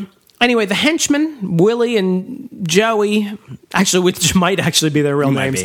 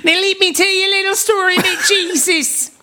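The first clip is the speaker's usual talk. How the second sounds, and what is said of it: Bad put-on Australian accent. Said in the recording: “I've worked in a horrible Australian accent.”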